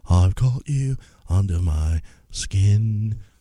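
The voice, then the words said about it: Poor imitation of singer's breathy voice. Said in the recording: “Was that your Bono impersonation ... it's a real crappy Bono. I can't do an Irish accent.”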